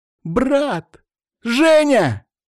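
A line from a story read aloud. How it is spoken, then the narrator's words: Shouting. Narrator (Russian): кричала Настя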